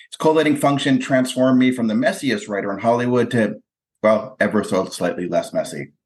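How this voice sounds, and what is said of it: Slightly drawly American accent. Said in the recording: “slightly drawly American accents”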